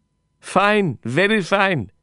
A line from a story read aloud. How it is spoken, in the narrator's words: he laughed